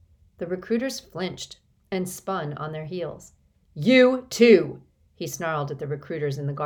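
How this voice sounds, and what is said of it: Usual voice. Nothing is said of it.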